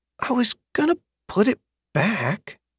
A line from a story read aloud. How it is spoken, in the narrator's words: he muttered